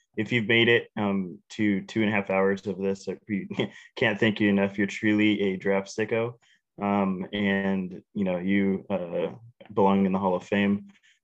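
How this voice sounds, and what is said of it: Impaired voice, not its usual sound. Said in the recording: “Sorry for my voice that I sound like a Lopez brother. Hopefully it'll clear up pretty soon.”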